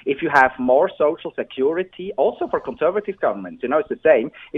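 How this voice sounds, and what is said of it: Swiss accent. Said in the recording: “as you can hear from my accent, I'm originally from Switzerland”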